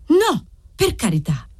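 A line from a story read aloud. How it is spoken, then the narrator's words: Shout. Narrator (Italian): gridava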